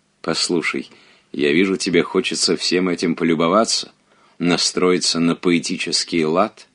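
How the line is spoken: Plain. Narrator (Russian): сказал Робер

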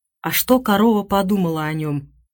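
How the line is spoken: Whispering. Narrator (Russian): шепнул Венинг Сьюзен

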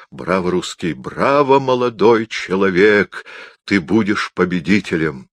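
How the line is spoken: Solemn exclamation. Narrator (Russian): торжественно снова воскликнул

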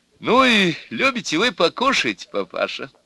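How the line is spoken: Cheerful, close to ear. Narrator (Russian): весело сказала мать невесты на ухо деду

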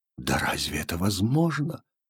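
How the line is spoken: Unconscious whisper. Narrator (Russian): шептал он бессознательно

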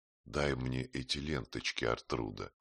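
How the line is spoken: Tender whisper. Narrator (Russian): Нежным шепотом попросил Астольф

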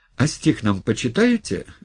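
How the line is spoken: Cheerful question. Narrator (Russian): весело спросил Николай Колокольников

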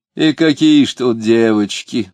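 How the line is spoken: Indecently loud chatter. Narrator (Russian): болтал он неприлично громко

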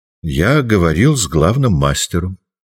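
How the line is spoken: Composed, almost calm. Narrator (Russian): Джослин уже овладел собой и сказал почти спокойно

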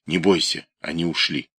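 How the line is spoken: Whisper. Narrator (Russian): Он шепнул ей

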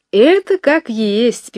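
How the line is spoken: Singsong voice. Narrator (Russian): певучим голосом говорила сторожиха

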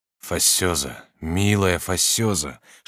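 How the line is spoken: Whispering. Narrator (Russian): шептал он

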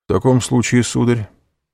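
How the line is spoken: Calm. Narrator (Russian): спокойно ответил президент

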